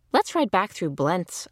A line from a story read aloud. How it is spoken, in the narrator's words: I said